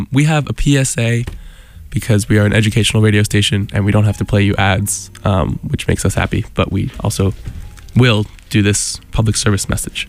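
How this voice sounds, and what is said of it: Sniffly voice with a cold. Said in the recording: “I keep sniffling into the mic ... I have a bit of a cold.”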